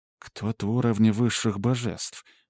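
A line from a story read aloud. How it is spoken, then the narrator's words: Inner whisper. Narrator (Russian): мысленно прошептала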